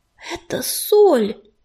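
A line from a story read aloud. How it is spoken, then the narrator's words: Strained, forced out. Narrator (Russian): выдавил он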